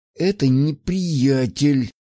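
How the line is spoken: Through gritted teeth. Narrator (Russian): сквозь зубы ответила она, ощущая от его прикосновений явный дискомфорт

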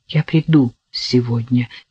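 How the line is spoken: Quiet. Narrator (Russian): тихо сказал

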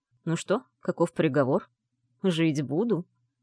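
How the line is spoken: Mocking. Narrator (Russian): Насмешливо уточнил Моро

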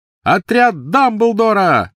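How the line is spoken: Shout. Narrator (Russian): выкрикнул он

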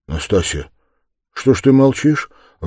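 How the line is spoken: Timid weak voice. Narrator (Russian): робко проговорил слабым голосом

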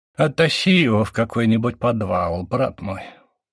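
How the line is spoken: Bored tone. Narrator (Russian): Скучающим тоном проговорил Матонин

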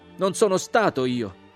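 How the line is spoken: Shouted. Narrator (Italian): gridai

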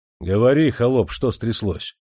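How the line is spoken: Menacing, stern. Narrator (Russian): грозно насупился Демидов

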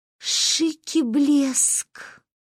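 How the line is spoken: Breathless exclamation. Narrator (Russian): выдохнула Манюня

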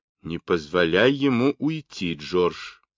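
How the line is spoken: Plain. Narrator (Russian): сказала она

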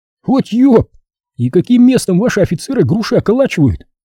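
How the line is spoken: Bitter exclamation. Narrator (Russian): с горечью воскликнул Вася

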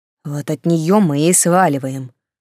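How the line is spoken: Grumbling, calming down. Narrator (Russian): пробурчал Сильдавир, уже немного успокоившись

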